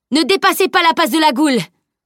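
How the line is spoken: Shouting. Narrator (French): cria Edwin

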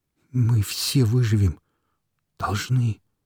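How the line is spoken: Trembling babble. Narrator (Russian): пролепетал дрожащим голосом пришлый

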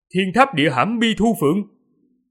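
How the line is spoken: Loud carrying question. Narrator (Vietnamese): Sư tổ nhân hoàng cao giọng hỏi, giọng nói của từng mục truyền đến

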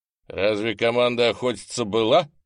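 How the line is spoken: Stern question. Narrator (Russian): строго спросил благородный Ант

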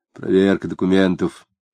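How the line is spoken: Polite quiet reply. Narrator (Russian): вежливо и тихо ответил жандарм

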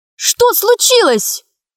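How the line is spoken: Exclaiming, then louder shout. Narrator (Russian): воскликнула Гаврилова и крикнула громче

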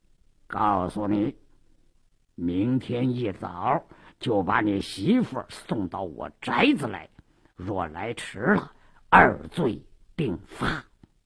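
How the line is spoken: Lowered voice. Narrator (Chinese): 鲁斋郎压低了声音

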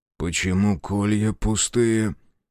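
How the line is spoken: Muffled question. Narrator (Russian): глухо спросил Рух

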